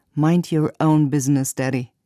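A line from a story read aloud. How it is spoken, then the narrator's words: Plain. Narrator (German): sagte er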